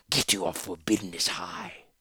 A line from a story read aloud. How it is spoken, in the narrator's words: lead creature hissed